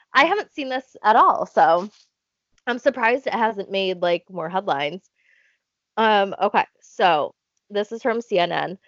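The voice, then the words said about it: Stuffy, congested voice. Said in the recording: “I'm stuffy right now, okay? I'm stuffed up.”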